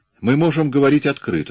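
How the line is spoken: Plain. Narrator (Russian): сказал Ладани

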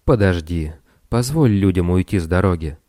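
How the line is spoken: Soft. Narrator (Russian): Тесей мягко произнес

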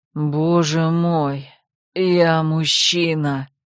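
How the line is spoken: Hoarse rasp. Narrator (Russian): Прохрипела я

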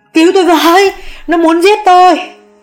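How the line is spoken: Terrified shriek. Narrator (Vietnamese): mụ Hường thét lên

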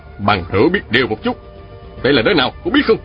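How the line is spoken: Shout. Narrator (Vietnamese): Phùng Nam Địch quát lên

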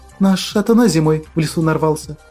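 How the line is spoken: Sad girl's answer. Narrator (Russian): печально ответила девчонка

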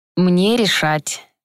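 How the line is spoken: Gentle yet menacing. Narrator (Russian): так же ласково продолжил детектив

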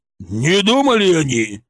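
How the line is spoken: Furious roar. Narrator (Russian): взревел Шаповалов, побагровев еще больше

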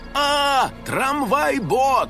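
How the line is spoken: Frightened shout. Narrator (Russian): закричал Финик

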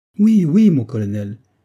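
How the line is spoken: Exclaimed. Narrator (French): s'écria le capitaine Hood

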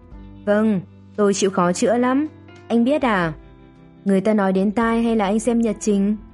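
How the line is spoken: Mocking. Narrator (Vietnamese): nói mỉa mai

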